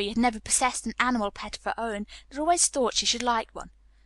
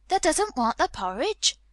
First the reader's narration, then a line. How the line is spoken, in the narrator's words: Martha exclaimed incredulously